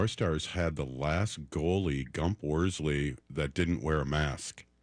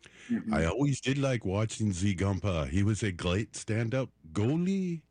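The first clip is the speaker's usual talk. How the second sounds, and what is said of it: Put-on French-Canadian accent. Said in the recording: “accent, too ... Yeah, French-Canadian.”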